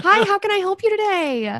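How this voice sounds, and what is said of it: Bright, overly polite customer-service voice. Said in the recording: “The customer service voice.”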